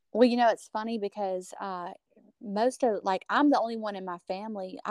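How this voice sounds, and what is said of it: Strong country accent. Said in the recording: “your accent is very strong. Like, you, like, route, like, cowgirl. Like, cowgirl.”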